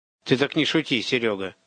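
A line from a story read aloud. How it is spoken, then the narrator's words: Angry. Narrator (Russian): сердито сказал он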